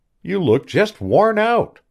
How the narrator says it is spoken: she cried cheerily

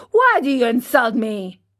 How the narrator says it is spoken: he said to him angrily

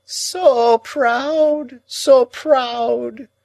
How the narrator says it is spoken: moaned Miss Havisham

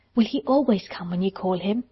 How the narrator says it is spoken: asked, almost in a whisper

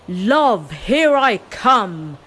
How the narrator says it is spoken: shouting

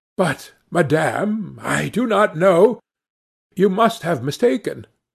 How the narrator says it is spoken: astonished to be familiarly addressed by this plain goodwife, did not recognize her at all, and stammered

